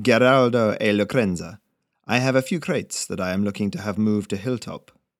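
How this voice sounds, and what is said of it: Lyrical foreign-sounding character accent. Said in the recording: “his accent oddly lyrical”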